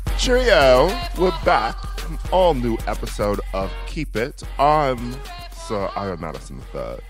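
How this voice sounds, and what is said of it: Put-on British accent. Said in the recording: “This is an all British episode. ... We got to bring the accents back”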